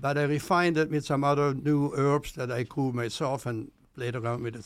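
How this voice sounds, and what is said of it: Speaks with a noticeable accent. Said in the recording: “hear your accent and really enjoy that.”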